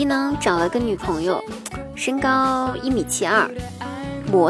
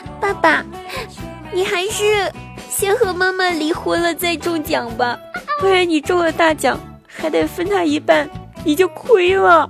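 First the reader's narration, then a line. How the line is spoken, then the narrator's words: Child crying heartbrokenly. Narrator (Chinese): 我大外甥哭得超级伤心，一边哭一边说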